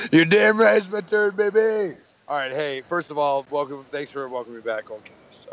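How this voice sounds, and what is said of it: Hoarse, nearly lost voice. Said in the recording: “My voice is non existent because I've been shouting”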